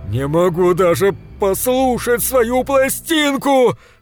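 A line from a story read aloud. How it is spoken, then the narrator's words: Loud. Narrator (Russian): сказал он громко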